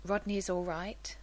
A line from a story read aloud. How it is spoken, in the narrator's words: Taylor asks